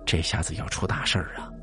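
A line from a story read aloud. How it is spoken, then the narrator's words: Worried old man muttering. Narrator (Chinese): 爷爷高兴不起来，口中喃喃自语的说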